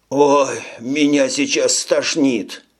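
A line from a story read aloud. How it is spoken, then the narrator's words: Moan. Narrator (Russian): простонал тот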